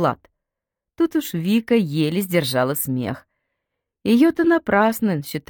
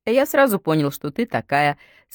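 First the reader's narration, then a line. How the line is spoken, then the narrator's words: After laughing. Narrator (Russian): сказал он, отсмеявшись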